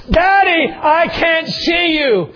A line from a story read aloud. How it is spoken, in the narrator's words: But he yelled back